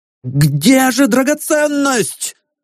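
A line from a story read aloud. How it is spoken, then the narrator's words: Leader shouting. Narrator (Russian): закричал предводитель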